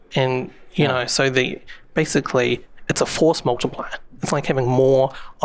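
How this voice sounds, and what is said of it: New Zealand accent. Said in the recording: “I don't know if you can tell from my accent, but I'm from New Zealand.”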